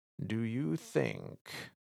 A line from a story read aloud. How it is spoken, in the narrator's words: I said slowly